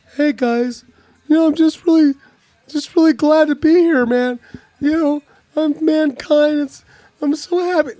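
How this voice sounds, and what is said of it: Imitates another person's voice. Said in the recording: “I could do his voice ... That was his voice.”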